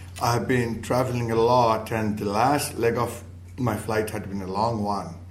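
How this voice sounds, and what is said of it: Weak, nearly lost voice. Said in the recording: “My voice is almost gone, but hopefully it's still audible ... if I speak slowly”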